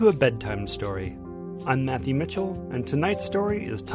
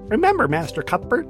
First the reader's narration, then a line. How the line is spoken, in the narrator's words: Fizzwick chirped